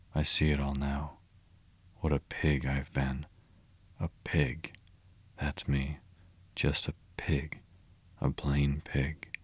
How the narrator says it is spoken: he muttered gloomily

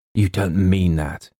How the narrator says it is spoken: he gasped

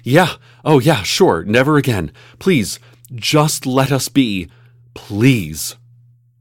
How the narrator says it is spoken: PTA President Moreno agreed to these terms, panting

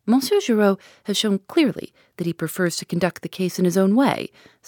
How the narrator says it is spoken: said Monsieur Hotet dryly

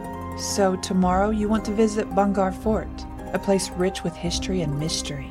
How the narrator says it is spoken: she asked

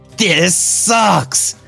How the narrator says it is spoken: He screamed

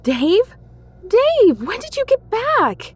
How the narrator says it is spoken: she blurted

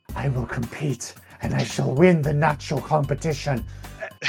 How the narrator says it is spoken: Casilla whispered under her breath

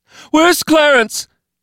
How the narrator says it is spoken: She screamed to no one, to everyone

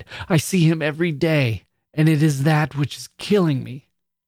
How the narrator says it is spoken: she cried

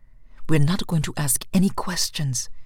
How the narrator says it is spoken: she whispered to herself, like the crazy woman she had now become

